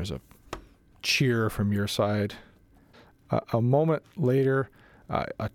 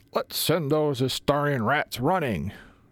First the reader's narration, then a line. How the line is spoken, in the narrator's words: somebody hoot and yell